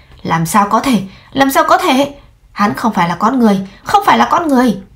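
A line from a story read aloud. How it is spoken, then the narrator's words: Shrill scream, shocked. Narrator (Vietnamese): Hai mắt Huyền Minh tán nhân trợn lớn, hét lên chói tai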